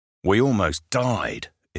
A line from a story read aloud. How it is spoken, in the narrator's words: his New Zealand accent being pushed through clenched teeth